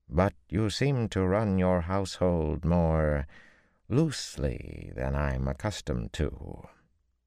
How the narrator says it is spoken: Ty Lee drawled in careful tones

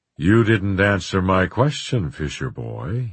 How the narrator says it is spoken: he said in his mellow voice

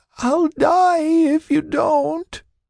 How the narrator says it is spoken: sobbed, tears flowing from her eyes

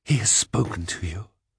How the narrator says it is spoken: gasped

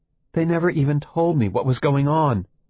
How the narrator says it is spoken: Eleanor says urgently

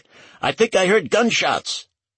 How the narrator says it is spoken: shouted back

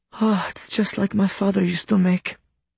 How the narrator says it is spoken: Minka sighs

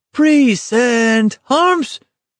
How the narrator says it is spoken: McVries his face going a spotty red with the effort it cost him to shout

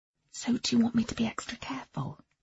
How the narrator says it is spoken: I said quietly

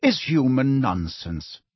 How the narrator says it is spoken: said Ferenczi calmly

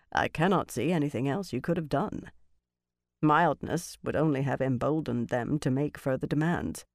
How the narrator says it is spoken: Norrie said in his dry voice

